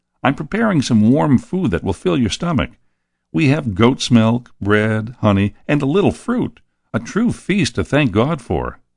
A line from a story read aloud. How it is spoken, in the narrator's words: he said happily